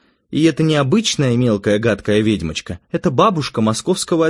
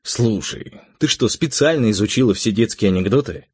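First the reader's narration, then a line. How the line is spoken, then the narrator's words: Plain. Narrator (Russian): спросил я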